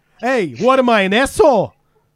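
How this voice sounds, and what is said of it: Put-on New York accent. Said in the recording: “rank our New York accents and pick who's better”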